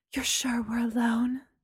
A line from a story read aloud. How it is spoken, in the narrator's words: Mary's voice whispered